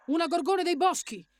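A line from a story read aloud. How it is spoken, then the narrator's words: Shouted. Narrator (Italian): gridò Ethel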